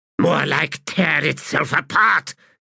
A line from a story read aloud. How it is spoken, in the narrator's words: Telerast hissed